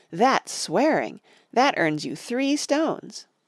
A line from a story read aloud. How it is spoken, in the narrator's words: cried Betsy